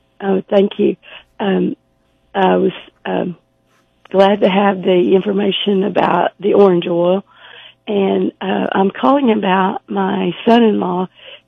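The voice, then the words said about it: Voice affected by a cold. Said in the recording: “Excuse my voice. I've got a cold.”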